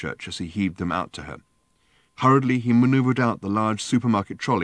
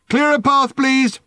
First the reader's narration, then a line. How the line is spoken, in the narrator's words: shouted Ford again